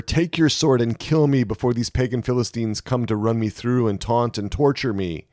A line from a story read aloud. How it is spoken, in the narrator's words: Saul groaned to his armor-bearer